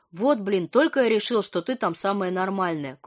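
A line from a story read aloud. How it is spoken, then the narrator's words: Disappointed snort. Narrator (Russian): Курьер Вася разочарованно хмыкнул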